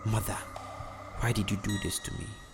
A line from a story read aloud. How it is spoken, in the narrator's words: Jansi murmured to himself